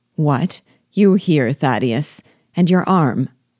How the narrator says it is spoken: D'Auvergne said in a severe tone

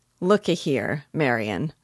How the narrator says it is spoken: said Father

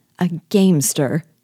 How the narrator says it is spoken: she cried

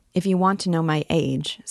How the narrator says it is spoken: said Quasimodo

